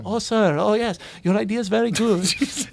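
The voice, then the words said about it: Put-on Indian accent, deferential voice. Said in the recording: “that was an impression of an American Indian man”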